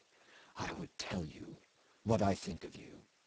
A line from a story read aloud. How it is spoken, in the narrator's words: he said, very softly